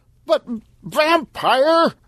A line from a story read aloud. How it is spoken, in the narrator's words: Stan shouted